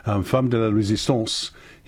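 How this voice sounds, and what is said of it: Put-on French accent. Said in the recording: “in his worst French accent ... That was quite good.”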